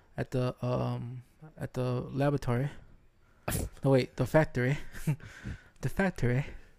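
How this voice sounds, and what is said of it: Put-on British accent. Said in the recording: “I'm working on my British accent.”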